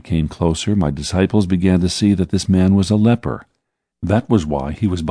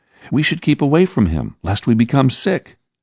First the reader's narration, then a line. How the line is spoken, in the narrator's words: shouted Judas, not Iscariot